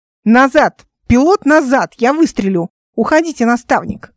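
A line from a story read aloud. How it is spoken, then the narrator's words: Shout. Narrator (Russian): крикнула Ника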